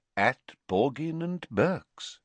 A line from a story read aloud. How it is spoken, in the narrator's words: repeated Dumbledore calmly